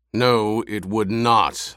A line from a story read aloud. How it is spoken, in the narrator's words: the Baron growled